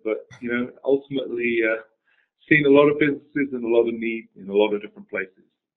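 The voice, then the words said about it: British accent. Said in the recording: “being from the UK ... What's that funny accent?”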